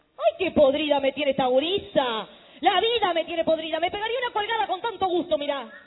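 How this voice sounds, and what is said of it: Shouting. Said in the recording (Spanish): “no grites así”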